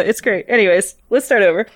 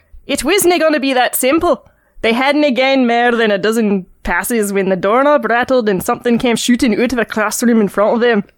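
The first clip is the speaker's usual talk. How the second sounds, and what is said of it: Attempted Scottish accent. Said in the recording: “she's reading the Scots version of Harry Potter ... I've never done a Scottish accent properly. It'll probably be Jamaican at some point.”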